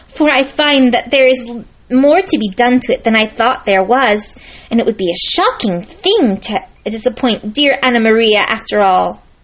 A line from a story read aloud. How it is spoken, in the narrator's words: cried Lucy